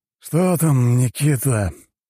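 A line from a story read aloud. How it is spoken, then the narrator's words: Sleepy question. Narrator (Russian): сонным голосом спросил у него Воробьев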